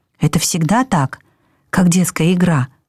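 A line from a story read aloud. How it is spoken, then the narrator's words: Whispered question. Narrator (Russian): шепотом спросил я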